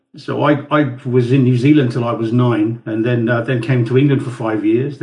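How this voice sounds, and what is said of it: Mixed British-sounding accent. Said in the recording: “an English accent ... my accent is all over the place. ... it sounds British to me.”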